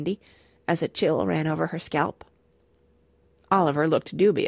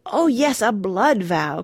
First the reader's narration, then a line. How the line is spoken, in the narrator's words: cried Randy with a rapturous leap